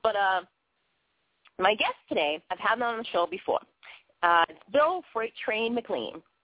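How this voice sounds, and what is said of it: Boston accent, thick mumbly speech. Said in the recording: “I've got potatoes in my mouth, more so than actually my own Bostonian accent”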